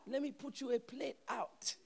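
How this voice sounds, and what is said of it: Imitated Haitian accent. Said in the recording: “with a Haitian accent.”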